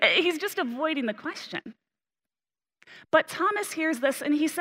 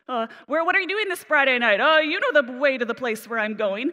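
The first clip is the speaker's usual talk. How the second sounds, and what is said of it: Evasive teenager voice. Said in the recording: “He sounds like a teenager”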